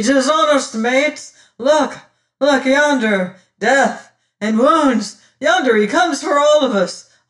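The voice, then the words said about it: Hoarse screaming character voice. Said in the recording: “hoarse scream”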